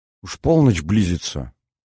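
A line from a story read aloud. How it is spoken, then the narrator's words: Mutter. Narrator (Russian): пробормотала она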